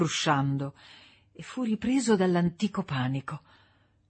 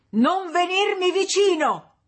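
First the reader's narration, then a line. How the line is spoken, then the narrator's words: Shouting. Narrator (Italian): gridò April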